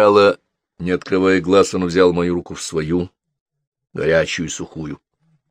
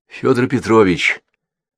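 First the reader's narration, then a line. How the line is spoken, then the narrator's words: Quiet call. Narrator (Russian): Тихо позвал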